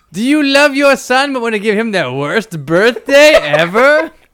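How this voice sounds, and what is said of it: Theatrical wizard character voice. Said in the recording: “your standard wizard voice has a bit more like Ice King ... I'm doing a wizard voice now. ... That's perfect.”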